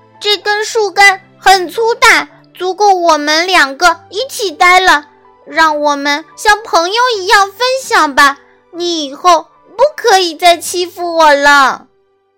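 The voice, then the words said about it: Loud, brave voice. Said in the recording (Chinese): “大声告诉花豹”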